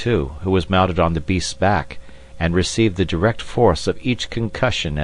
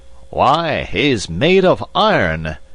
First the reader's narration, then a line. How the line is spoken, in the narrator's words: exclaimed the general, gazing admiringly on Kiuni